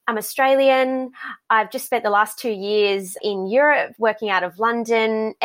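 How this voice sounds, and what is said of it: Thick Australian accent. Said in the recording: “I have a very thick Australian accent”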